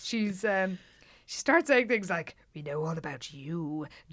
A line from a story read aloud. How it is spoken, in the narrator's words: Jan said in a sinister voice to Regina